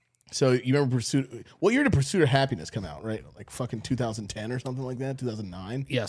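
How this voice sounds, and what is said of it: Usual voice. Nothing is said of it.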